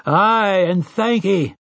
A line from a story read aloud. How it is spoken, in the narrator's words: they had roared their answer